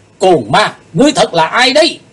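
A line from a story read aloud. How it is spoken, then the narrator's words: Loud shout. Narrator (Vietnamese): Chí Tôn thét lớn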